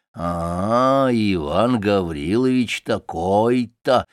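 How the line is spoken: Muffled muttering to himself. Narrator (Russian): повторяет он глухо про себя

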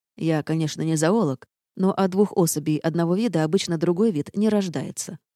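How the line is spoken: Smirking snort. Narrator (Russian): хмыкнул герцог

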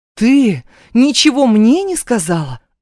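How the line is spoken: Indignant shout. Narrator (Russian): возмущенно выкрикиваю

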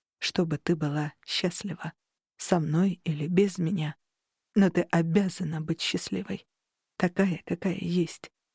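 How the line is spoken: Quiet. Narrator (Russian): продолжил Тарухан тихо

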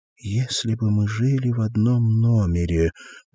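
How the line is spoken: Mumbling. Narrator (Russian): пробормотала

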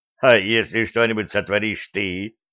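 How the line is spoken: Skeptical snort. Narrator (Russian): скептически хмыкнул гном

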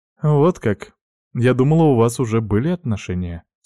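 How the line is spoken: Calm. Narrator (Russian): спокойно сказала пепельноволосая

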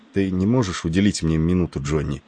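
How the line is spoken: Boy's undertone. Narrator (Russian): вполголоса проговорил капковый мальчик

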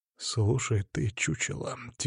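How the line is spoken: Quiet but audible. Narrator (Russian): тихо сказал я, но так, чтобы он меня услышал

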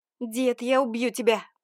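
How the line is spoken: Frantic screaming. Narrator (Russian): прокричала я, как ненормальная

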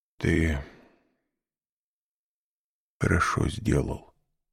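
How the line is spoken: Old man's muffled voice. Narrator (Russian): сказал старик глухим голосом

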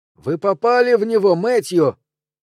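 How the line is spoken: Shouted. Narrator (Russian): Лоренс крикнул

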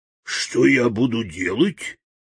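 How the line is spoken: Hoarse deep bass. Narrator (Russian): хрипло пробасил полководец

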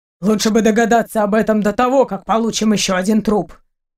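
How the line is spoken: Grumbling. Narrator (Russian): проворчал Семенович

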